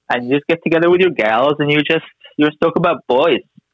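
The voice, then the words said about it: Mock impression of a woman's voice. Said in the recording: “That's my impression of women.”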